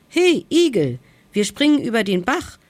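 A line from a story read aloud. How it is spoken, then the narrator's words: Hare calling out. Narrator (German): rief der Mummelhase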